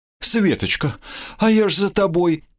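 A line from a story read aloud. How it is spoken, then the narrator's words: Sobbing. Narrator (Russian): всхлипнула Неонила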